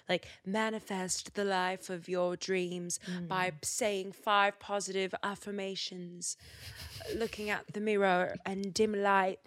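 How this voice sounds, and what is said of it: Exaggerated put-on accent, deliberately bad. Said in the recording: “That's the worst accent ever.”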